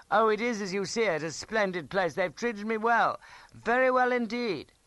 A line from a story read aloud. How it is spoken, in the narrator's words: said loudly